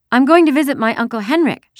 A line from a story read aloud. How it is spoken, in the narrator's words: she chirped